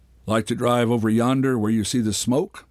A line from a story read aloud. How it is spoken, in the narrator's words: asked the driver